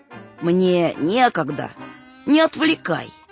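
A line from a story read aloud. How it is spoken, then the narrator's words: Cold old man's reply. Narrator (Russian): холодно ответил дед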